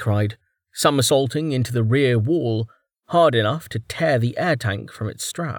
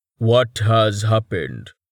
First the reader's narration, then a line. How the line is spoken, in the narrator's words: Tallheart rumbled urgently